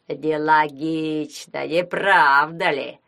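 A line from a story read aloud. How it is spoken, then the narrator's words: Nasal voice. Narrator (Russian): спросил гнусавый Вацлав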